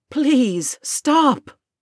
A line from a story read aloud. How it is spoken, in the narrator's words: gasped, dramatically